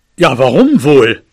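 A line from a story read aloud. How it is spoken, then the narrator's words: Father growling back. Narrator (German): knurrte mein Vater zurück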